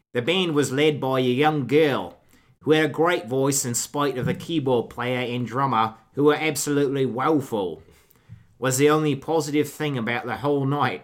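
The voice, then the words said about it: Put-on accent while reading. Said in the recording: “I don't know what accent I'm doing.”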